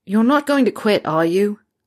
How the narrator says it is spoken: Harry said loudly

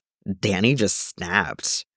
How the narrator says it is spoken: One of his coworkers mutters

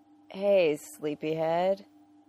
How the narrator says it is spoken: Neil slurs, the grin on his face less like a charming con man and more like an adorable 5-year-old

